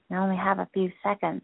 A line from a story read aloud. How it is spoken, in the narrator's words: I whisper